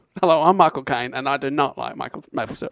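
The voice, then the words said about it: Michael Caine impression. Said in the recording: “I've also got Michael Caine”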